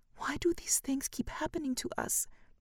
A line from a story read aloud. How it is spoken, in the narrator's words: cries the length of night